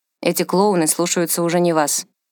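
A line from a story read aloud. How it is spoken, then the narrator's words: Bored remark. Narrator (Russian): заметил Макс скучающим тоном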